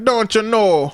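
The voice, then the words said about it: Put-on North Dakota accent. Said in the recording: “talking like that ... up North Dakota type accents”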